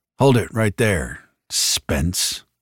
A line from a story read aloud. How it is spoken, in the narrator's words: growled